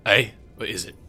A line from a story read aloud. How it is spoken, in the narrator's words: He looks up at you and grunts